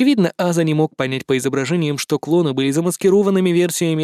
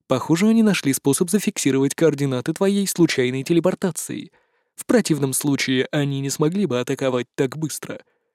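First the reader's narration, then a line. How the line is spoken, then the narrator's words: Gently. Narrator (Russian): мягко сказал Йогу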